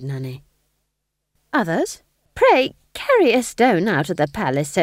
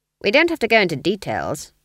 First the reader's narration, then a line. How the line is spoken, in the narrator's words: Granny said icily